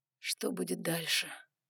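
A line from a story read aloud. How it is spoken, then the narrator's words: Quiet question. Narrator (Russian): тихо спросил Ноа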